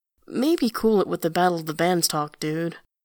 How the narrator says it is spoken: Jolie sighs and adds

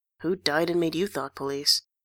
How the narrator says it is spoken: He mutters

